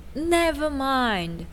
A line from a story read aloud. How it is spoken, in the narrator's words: shouted Took